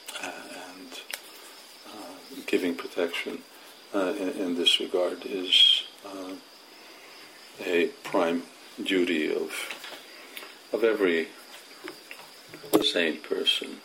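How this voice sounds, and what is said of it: Tired voice. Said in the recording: “I sound a little tired”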